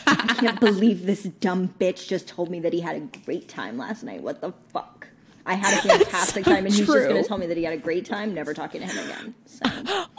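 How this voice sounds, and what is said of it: Imitates another person's voice. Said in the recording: “I think I can do a better impression of Mattea ghosting than Mattea just did. Ashley, I'm Mattea now.”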